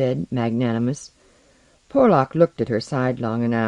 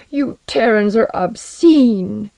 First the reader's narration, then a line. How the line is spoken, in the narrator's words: Alaru burst into tears and cried